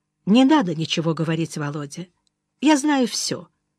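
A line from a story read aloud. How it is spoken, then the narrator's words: Quiet. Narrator (Russian): сказала негромко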